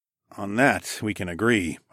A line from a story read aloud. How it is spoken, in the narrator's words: I murmured